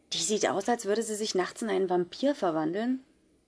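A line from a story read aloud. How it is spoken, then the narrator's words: Fascinated whisper. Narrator (German): Polly flüsterte mir fasziniert zu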